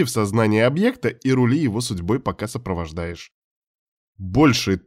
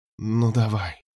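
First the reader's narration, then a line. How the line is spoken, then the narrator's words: Whispered. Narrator (Russian): прошептала Таня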